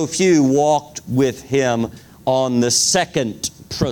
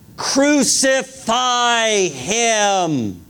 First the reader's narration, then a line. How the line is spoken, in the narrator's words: cried out